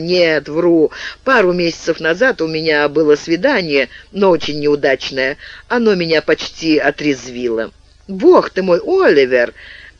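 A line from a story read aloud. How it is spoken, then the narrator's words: Laughing. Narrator (Russian): смеясь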